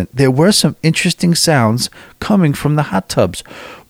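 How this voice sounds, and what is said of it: Half-hearted imitation of a woman's accent. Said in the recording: “I'm only half doing her accent.”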